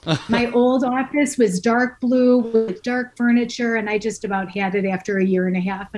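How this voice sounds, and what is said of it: Midwestern American accent. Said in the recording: “I detect a Midwest accent”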